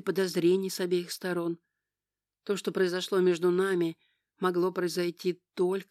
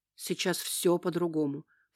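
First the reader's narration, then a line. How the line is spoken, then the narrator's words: Hurried addition. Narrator (Russian): поспешил добавить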